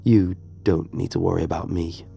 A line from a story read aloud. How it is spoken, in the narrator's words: the stranger muttered